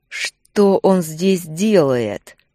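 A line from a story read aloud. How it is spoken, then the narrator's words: Growled, losing control. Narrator (Russian): прорычал, чувствуя, как волк выходит из-под контроля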